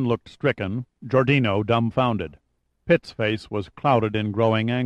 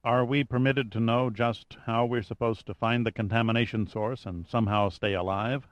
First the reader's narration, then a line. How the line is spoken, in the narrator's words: asked Gunn quietly